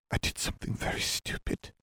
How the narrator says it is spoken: Katie whispered

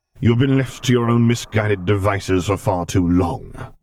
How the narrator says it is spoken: Vader snapped

